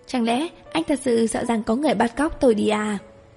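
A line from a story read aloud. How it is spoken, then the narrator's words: Smiling. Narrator (Vietnamese): Lạc Mỹ mỉm cười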